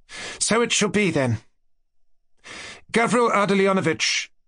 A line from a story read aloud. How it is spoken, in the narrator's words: she addressed him imperiously and, as it were, triumphantly